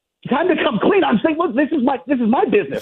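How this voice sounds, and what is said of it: Yelling, raised voice. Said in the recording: “First of all, why are you yelling? ... stop yelling.”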